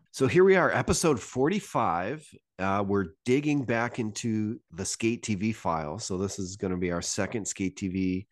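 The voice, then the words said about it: Congested, stuffed-up voice. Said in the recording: “I got a bit of a cold. My voice is stuffed up, so I might sound a little different”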